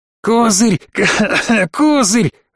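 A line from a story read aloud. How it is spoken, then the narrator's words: Choking wheezing scream, prisoner. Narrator (Russian): захлебываясь воплем, прохрипел пленник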